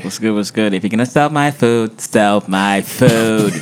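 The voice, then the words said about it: Mimics a TV character's voice. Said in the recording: “You mimicking the Top Boy.”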